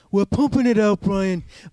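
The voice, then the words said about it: Conor McGregor impression. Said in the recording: “My Conor impersonation is getting better every week. ... It's not bad. It's kind of right.”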